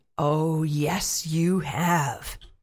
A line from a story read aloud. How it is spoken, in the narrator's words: the horrible creature snarled and said